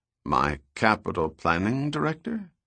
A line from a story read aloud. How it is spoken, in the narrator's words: Goyet asked in a confused tone